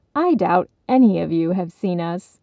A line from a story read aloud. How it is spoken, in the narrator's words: duckling laughed